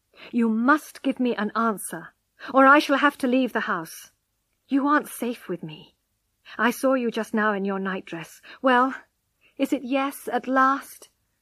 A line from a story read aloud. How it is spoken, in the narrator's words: he said firmly